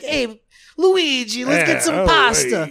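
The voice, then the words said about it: Exaggerated Italian Mario voice, Captain Lou Albano. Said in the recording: “I always thought of Mario as having a Brooklyn accent. And he was the one who made it, like, Albano Italian. Kinda.”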